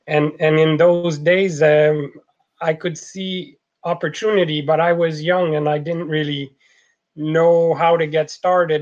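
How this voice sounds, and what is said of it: French Canadian accent. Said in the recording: “as you can tell from the accent, I'm a French Canadian”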